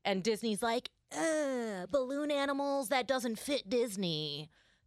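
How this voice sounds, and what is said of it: Imitates another person's voice. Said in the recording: “a really good impression of the chairman of Disney”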